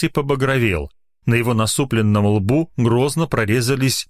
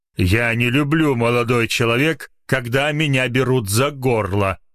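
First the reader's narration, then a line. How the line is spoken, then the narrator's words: Angry growl. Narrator (Russian): зло прорычал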